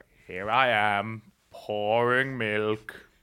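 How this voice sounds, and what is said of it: Imitates a famous narrator's voice. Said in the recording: “doing it in the Morgan Freeman accent the whole time”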